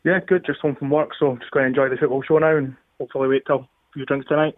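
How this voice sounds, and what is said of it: Fife accent. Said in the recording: “that's a Fife ... accent.”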